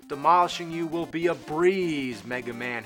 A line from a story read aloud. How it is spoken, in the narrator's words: shouted